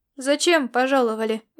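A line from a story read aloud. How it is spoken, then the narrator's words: Unfriendly questioning tone. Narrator (Russian): вопросил он недружелюбным тоном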